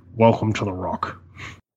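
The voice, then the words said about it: Sean Connery impression. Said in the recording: “best Sean Connery impersonation... set the bar really low”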